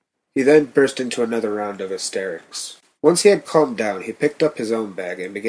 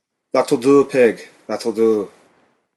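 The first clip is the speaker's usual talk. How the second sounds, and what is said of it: Mock Scottish accent. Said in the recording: “In a mock Scottish accent”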